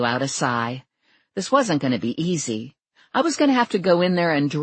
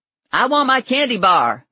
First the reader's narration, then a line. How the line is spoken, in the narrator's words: Lula yelled at the trailer